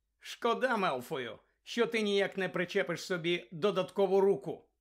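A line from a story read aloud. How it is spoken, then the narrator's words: Plain. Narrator (Ukrainian): сказав Гаррі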